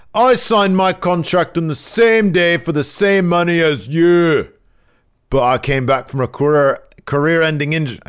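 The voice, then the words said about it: Bad British accent imitating someone. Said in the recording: “my bad British accent, my Gradwell voice”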